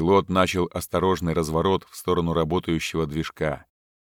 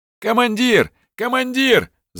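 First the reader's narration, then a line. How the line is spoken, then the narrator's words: Shouted. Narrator (Russian): закричал радист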